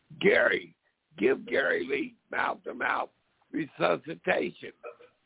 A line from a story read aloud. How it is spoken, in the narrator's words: someone starts hollering